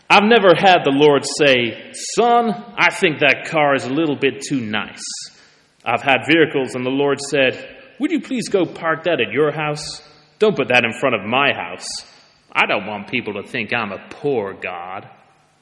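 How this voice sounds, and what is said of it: Put-on American TV preacher accent. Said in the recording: “often American on TV ... Shall I try the accent? Yeah, shall I try the accent? Let's try the accent.”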